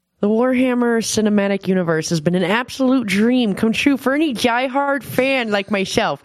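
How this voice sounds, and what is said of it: Impression of a co-host. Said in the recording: “best Nick impression”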